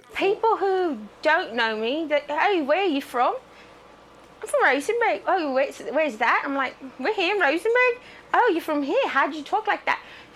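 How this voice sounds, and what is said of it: Foreign, English-sounding accent. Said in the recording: “Rare syndrome makes Texas mom speak with foreign accent ... I'm not from England”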